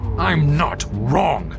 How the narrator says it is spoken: Alfred spat the words into Bessie's panicked face

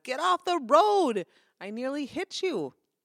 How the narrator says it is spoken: shouted

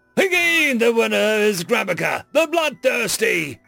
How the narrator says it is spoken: Fruffra Yuk bellowed, theatrically

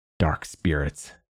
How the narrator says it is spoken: muttered Petter

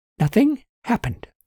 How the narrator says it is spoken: Susan said curtly

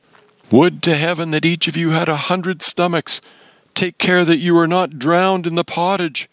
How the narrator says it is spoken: cried, as if mischief were at his heels

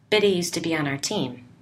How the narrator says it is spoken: Nick said

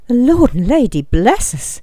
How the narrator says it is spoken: Gawain cried out

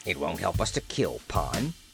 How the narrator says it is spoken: he muttered

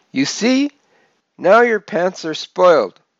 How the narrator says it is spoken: my mother yelled

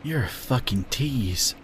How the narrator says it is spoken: Elijah groaned

